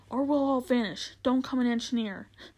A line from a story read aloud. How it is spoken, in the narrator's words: cried Diggory